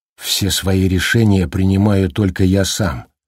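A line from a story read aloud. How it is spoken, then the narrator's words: Whisper. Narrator (Russian): прошептал Джек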